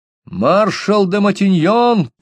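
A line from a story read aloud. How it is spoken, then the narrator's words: Shouting toward shore. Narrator (Russian): крикнул на берег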